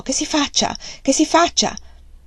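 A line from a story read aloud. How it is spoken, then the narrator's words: Exclaimed. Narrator (Italian): esclamò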